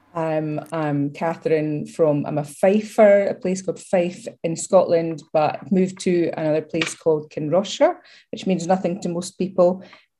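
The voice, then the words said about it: Scottish accent. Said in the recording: “What is that lovely accent”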